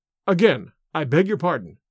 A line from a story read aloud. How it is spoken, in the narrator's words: said